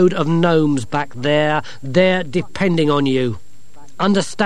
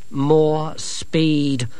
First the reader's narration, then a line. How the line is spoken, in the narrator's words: said Angelo grimly